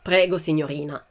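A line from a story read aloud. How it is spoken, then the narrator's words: Plain. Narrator (Italian): disse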